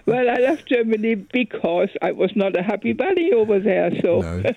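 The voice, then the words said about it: German accent in English. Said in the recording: “And you kept your accent, though. You kept your accent.”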